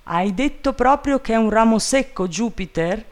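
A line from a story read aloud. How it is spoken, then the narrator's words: Trembling shout. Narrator (Italian): gridò Legrand con la voce tremante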